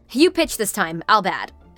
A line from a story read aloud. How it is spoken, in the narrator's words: Scott said